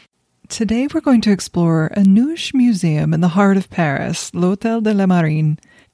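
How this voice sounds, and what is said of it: Congested, stuffy allergy voice. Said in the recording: “allergy sufferer if you can't hear that in my voice.”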